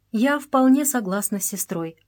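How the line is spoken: Plain. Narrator (Russian): ответила Мария

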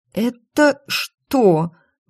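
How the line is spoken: Suddenly hoarse, strained. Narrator (Russian): внезапно осипнув, выдавила я из себя

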